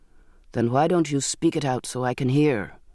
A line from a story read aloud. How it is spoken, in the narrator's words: he said sharply